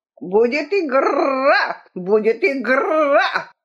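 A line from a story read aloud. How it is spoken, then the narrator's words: Hoarse shout. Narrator (Russian): крикнул он хриплым голосом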